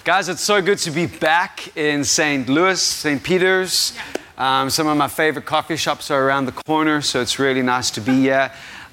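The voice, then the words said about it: Foreign, non-American accent. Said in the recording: “I know you guys have an accent. I'm sorry. Nothing I can do about it. If you have a problem with my accent,”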